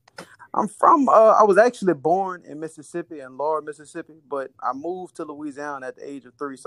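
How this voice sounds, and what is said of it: Mississippi and Louisiana accent. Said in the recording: “I definitely hear the accent.”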